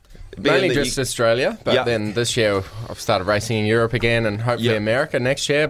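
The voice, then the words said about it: Australian-tinged accent. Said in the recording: “we've been stuck in Aussie, so it sucks. Speaking like one a bit as well”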